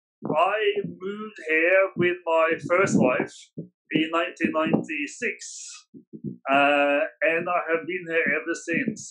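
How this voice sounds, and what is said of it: Norwegian accent, not Australian. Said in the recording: “you don't sound Australian ... I'm actually Norwegian”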